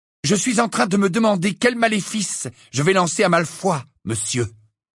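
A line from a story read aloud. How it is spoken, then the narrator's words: Fierce reply. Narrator (French): répondit Harry d'un ton féroce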